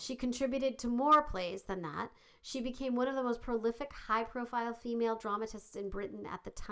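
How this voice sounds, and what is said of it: Usual voice. Nothing is said of it.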